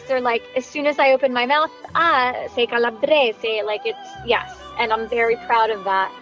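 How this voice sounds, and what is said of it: Southern Italian accent. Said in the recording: “it's obvious that I'm from southern Italy ... my dialect, my mm-hmm. accent, mm. my inflection”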